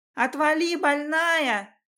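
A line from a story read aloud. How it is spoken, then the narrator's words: Shouting. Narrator (Russian): кричала она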